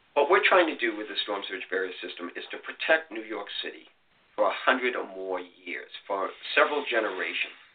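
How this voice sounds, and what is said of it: Boston accent. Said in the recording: “I'm a kid from Boston, as you can tell by my accent.”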